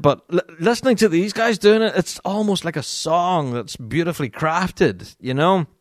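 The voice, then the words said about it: Northern Irish accent. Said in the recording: “my dodgy Northern Irish accent”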